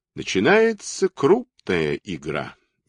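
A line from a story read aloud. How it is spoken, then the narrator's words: Slow. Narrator (Russian): медленно сказал он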